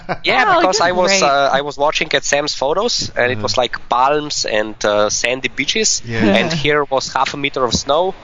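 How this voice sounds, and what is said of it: Noticeable accent. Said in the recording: “I love your accent.”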